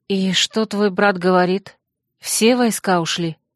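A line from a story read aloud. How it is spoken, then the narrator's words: Quiet. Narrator (Russian): негромко спросила я подавальщицу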